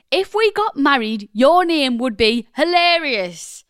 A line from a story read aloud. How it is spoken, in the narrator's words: shouted